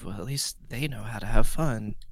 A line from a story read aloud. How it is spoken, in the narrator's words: Galen like whispers to himself